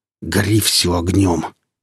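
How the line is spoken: Muttered through teeth. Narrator (Russian): процедил сталкер

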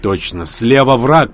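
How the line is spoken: Shout. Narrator (Russian): крикнул Данила

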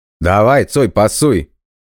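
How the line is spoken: Shouted. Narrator (Russian): крикнул кто-то

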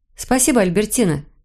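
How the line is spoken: Cheerful. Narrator (Russian): весело сказала я

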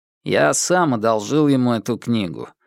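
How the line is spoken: Indifferent tone. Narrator (Russian): безразличным тоном произнес Яо Юань

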